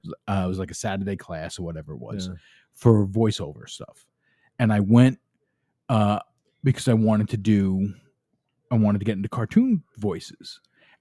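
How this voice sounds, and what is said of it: Brooklyn accent. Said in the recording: “my Brooklyn accent ... she couldn't get past my accent”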